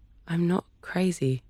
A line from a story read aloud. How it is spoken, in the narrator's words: muttered